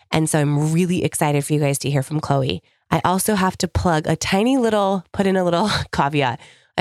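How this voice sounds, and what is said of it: Voice sounds unwell, different from normal. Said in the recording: “I apologize for my voice. We've been recovering from the flu over in my house. So I sound a little different than normal.”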